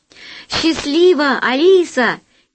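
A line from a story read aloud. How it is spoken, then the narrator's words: Shouted from below. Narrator (Russian): крикнул снизу Алеша Наумов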